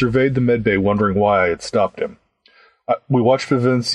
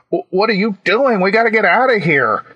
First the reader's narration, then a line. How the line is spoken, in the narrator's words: he yelled